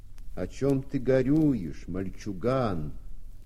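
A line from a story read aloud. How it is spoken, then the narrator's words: Deep bass question. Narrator (Russian): кто-то басом спросил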